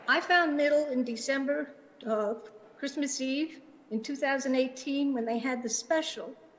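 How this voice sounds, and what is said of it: Slight New York accent. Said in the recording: “If you hear a bit of an accent, that's because I was born in New York and it never goes away.”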